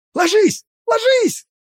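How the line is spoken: Yelling. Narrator (Russian): заорал

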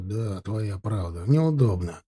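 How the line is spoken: Muttered. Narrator (Russian): пробормотал Тимофей

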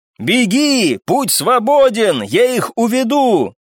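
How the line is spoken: Full-lung shout. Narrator (Russian): Во всю мощь легких закричал я

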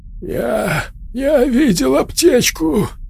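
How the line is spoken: Breathless, struggling for words. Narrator (Russian): Он выдохнул, с трудом формулируя слова

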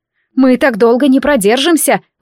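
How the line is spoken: Shouted. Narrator (Russian): выкрикнула я

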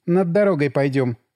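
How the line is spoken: Plain. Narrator (Russian): сказала Настя

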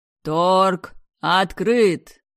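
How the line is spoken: Booming announcer. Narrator (Russian): прогремел ведущий

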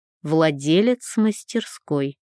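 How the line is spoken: Cold correction. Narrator (Russian): холодно поправил меня отец

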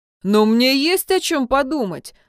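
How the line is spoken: Snapping back. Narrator (Russian): огрызнулся Джун

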